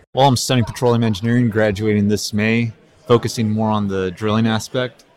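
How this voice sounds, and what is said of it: Deep voice. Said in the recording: “You see that deep voice?”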